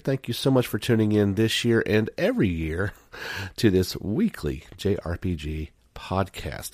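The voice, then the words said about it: Soft-spoken, worn voice with a cold. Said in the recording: “I'm a little soft-spoken. My voice has been run through the ringer ... I did manage to pick up a little cold and some little coughing, a little sneezy”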